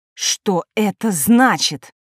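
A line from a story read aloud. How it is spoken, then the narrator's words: Sharp bark. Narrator (Russian): рявкнула Елена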